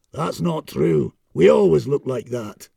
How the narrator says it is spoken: growled the shaggy-haired leader of the clan, in a thick Scottish accent

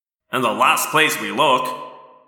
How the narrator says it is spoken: Marco grumbled

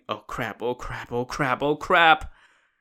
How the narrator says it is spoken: he just kept muttering

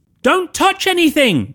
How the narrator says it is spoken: cried Harry

